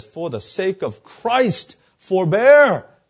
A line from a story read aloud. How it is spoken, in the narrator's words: he screamed at the top of his lungs